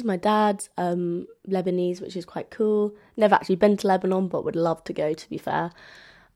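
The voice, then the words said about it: London English accent. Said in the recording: “as you can tell from my accent, I'm from London”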